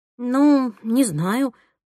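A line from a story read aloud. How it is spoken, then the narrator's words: Mumbled. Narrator (Russian): промямлила я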